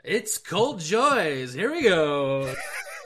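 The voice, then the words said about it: Game show host voice. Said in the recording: “game show voice that's different from your actual voice ... You actually talk like that when you host?”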